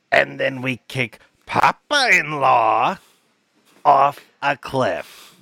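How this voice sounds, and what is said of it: Gilbert impression. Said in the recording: “your impression. ... Gilbert.”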